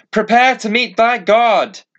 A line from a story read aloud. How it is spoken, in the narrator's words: shouted